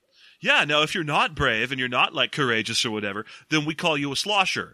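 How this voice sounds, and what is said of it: Cool beachy surfer accent. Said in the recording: “my kind of cool, beachy accent”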